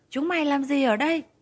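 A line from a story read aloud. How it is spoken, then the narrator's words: Loud shouting. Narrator (Vietnamese): Họ hét lớn tiếng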